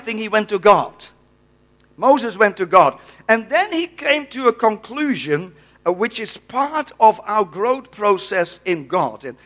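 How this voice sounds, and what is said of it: Dutch accent. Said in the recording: “I'm a Dutchman. I have a Dutch accent.”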